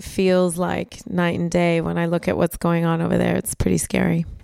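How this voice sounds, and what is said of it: American accent. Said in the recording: “for those who can hear your accent ... I'm American.”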